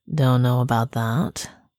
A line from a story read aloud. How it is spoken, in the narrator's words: the bull said tightly